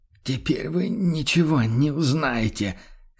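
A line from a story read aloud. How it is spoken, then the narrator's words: Hoarse. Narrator (Russian): хрипло выговорил фон Люфтенхаймер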